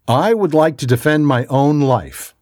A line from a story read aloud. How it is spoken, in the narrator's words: stated firmly and confidently